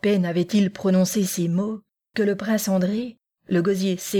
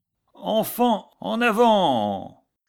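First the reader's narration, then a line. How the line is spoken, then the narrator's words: Piercing shout. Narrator (French): cria d'une voix perçante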